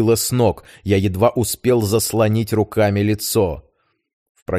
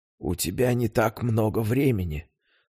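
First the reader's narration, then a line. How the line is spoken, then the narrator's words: Whisper. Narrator (Russian): прошептала она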